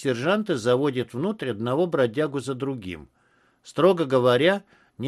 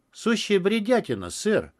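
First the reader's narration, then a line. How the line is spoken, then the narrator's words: Emotional exclamation. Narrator (Russian): чувством воскликнул пиджак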